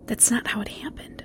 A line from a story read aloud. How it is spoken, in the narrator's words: she whispered